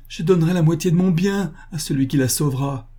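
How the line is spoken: Man exclaiming. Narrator (French): s'écria le boucher

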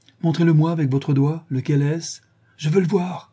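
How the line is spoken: Exclaimed. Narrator (French): s'écria-t-il

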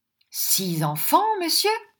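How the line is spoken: Exclaimed. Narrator (French): s'écria Squeers

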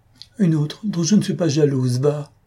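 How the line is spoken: Voice choked with sobs. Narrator (French): Un sanglot contenu étrangla sa voix

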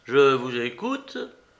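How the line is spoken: Embarrassed grumble. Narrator (French): grommela Bentley, devenu très rouge

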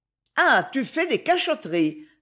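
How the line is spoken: Forced cheerful exclamation. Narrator (French): s'écria-t-elle avec une gaieté un peu forcée

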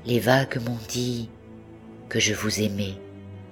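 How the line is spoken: Murmured. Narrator (French): murmura-t-il

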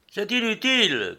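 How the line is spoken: Captain shouting. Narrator (French): cria le capitaine

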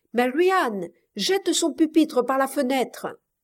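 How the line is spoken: Shouting. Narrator (French): cria-t-il

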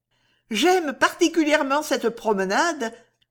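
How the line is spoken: Sighing. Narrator (French): dit Miss Tilney avec un soupir

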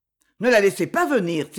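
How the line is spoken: Sharp quick exclamation. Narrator (French): s'écria-t-il vivement

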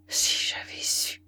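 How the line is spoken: Muttered through teeth. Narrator (French): Telmarque murmura entre ses dents

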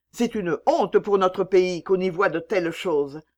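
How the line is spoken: Woman cried out. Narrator (French): s'écria une troisième femme

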